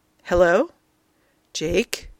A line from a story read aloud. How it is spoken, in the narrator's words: A softly accented voice comes across the line